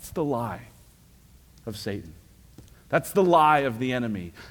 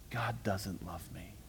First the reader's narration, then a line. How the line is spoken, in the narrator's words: whispering to every one of God's children